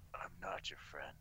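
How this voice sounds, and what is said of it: Imitates Geralt of Rivia's voice. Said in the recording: “best Geralt of Rivia impression”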